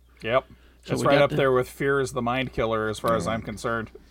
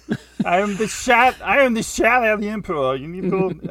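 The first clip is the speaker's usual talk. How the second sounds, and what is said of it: Put-on unidentified accent. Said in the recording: “I don't know what accent I'm doing right now.”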